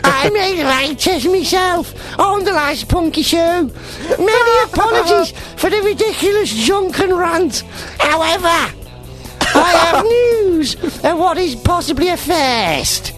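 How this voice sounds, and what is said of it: Imitates another person's posh accent. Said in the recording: “I should be doing this in his accent ... Posh boy”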